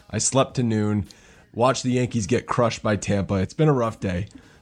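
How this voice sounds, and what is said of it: Rough, worn-out voice. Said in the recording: “I am not feeling too hot... As you can probably tell from my voice, it's been a rough one.”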